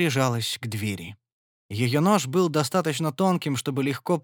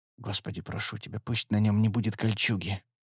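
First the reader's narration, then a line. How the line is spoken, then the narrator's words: Muttering. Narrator (Russian): Она пробормотала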